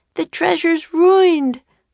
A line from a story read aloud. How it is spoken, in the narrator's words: moaned Annie